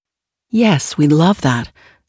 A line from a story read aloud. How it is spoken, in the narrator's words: responded warmly but evenly, in the precise tone I'd practiced